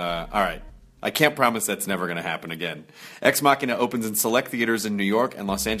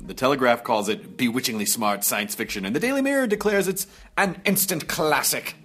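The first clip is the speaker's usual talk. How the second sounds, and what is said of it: Put-on accent while reading quotes. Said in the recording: “Maybe I shouldn't do that accent.”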